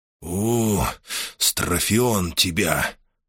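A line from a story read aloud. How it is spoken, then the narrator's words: Whispered curse, stunned. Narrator (Russian): шепотом выругался Хар, потрясенный неслыханной музыкой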